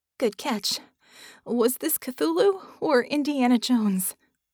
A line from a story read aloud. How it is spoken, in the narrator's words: she asked, panting